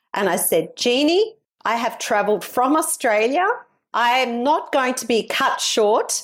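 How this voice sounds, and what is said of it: Usual voice. Nothing is said of it.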